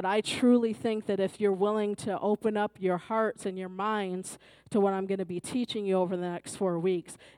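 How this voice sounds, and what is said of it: Hoarse, strained voice. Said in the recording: “As you can probably tell, my voice is a little sketchy, so pray that I don't lose my voice”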